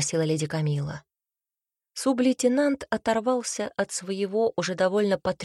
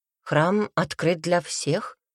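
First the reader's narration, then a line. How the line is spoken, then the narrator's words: Plain. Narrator (Russian): ответил он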